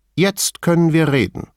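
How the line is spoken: Plain. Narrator (German): sagte Veltrini

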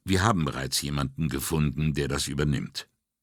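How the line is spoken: Calm. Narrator (German): sagte Brunetti ruhig

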